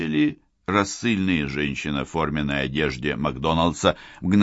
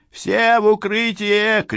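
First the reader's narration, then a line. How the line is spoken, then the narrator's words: Shout. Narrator (Russian): крикнула Сакс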